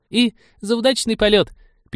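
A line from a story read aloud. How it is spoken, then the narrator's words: Squeaky female voice. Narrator (Russian): пискнула Полина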